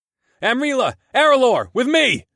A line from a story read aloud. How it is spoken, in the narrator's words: I shouted